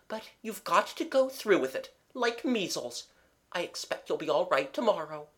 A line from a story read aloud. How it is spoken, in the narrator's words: said Mabel kindly